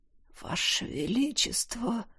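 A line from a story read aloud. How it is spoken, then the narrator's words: Hoarse wheeze. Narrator (Russian): прохрипел подползший к повелителю Тизар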